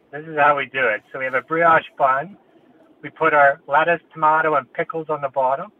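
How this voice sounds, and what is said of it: Canadian accent. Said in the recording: “have you got an accent? ... I do have an accent. I'm Canadian.”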